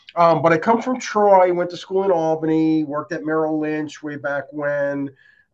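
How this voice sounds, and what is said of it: New York accent, slightly nasal. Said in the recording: “I tend to have a bit of a New York accent ... It's very New York ... I actually have a little cold, so I'm a little nasally”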